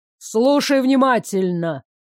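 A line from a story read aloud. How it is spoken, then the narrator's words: Stern. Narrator (Russian): строго сказал молодой старый бог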